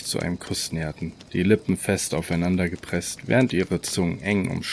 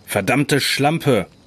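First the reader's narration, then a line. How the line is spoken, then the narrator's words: Shout. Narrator (German): schrie Isaac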